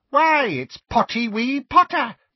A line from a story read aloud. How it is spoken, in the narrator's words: cackled Peeves